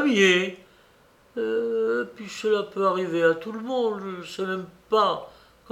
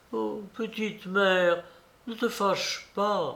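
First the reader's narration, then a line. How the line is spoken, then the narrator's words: Pleaded. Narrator (French): implorait-il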